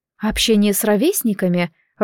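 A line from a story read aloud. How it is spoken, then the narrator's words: Timid answer. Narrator (Russian): робко ответила Света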